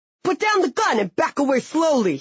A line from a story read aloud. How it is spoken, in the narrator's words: yelled in a New York accent